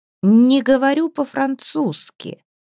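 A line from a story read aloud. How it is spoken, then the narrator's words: Hoarse. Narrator (Russian): хрипло выговорил он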